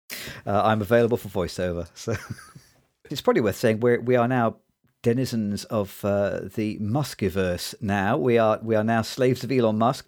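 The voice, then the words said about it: Smooth British accent. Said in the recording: “your beautiful, smooth British accent ... it only sounds beautiful and smooth in America. In Britain, it sounds very pedestrian ... very smooth comic with a British accent”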